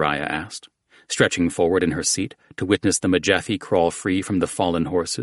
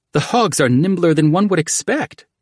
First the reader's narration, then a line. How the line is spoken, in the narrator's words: the queen exclaimed